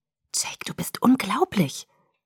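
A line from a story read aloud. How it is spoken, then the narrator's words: Whispered. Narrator (German): flüsterte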